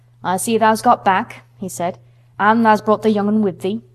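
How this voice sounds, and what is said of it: Broad Yorkshire accent. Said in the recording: “pronouncing his words in a queer, broad fashion which Mary found out afterwards was Yorkshire”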